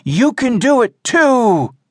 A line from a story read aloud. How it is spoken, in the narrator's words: shouted